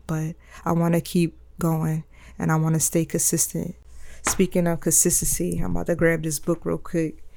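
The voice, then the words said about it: Hoarse voice. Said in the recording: “my voice sounds extra hoarse today. If it doesn't sound good”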